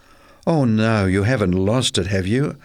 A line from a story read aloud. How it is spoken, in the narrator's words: asked her mother anxiously